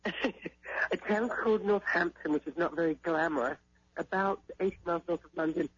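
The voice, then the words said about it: Slight British accent with twang. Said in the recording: “you can hear that little bit of a twang ... a little bit of a British twang ... I heard that region in your voice”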